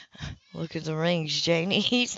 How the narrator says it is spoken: Leo said gently

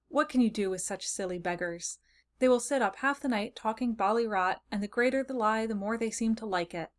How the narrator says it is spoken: Jim in vexation and exclaim with an exasperated little laugh

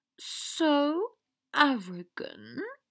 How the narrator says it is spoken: she purred

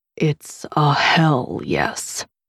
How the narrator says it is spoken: he said, his voice husky and low

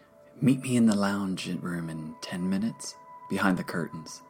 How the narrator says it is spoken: he whispered

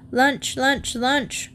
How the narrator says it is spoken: grunted Fanny

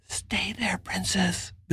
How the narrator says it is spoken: Billy whispered

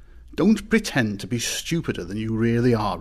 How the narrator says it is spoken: replied the badger crossly

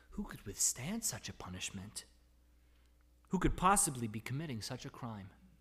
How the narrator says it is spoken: The people began to murmur among themselves

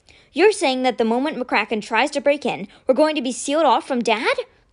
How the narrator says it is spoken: Constance cried

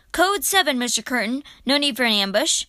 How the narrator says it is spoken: the tin man … as he called out

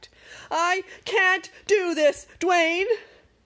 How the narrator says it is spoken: screamed

